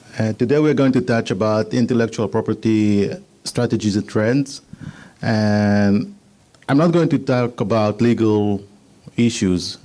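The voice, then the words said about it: Israeli-accented English. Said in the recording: “forgive my Israeli accent”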